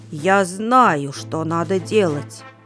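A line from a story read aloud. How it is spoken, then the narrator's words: Angry cough, then speaking. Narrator (Russian): сердито кашлянул и произнес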